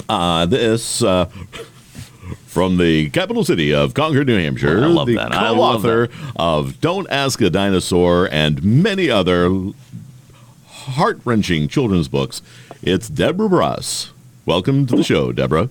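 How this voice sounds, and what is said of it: Announcer-style radio voice. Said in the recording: “Did you like the radio voice?”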